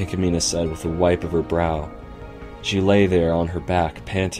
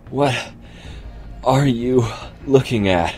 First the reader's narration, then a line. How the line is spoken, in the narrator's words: She panted